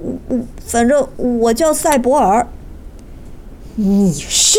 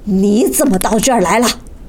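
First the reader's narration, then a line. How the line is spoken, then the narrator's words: Angry. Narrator (Chinese): 茨瓦克曼怒气冲冲地说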